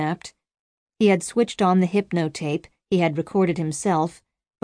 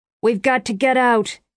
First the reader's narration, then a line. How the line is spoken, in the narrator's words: Haber shouted over his own voice